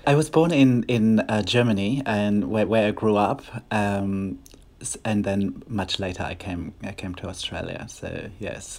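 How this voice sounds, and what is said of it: Slight German accent. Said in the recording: “a little bit of an accent there. I want to talk about where that accent comes from”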